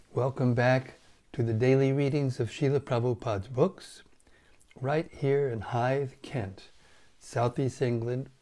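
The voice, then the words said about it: Partly lost, strained voice. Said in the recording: “my voice is somehow, rather, I lost my voice a little bit today ... So you have to tolerate my voice.”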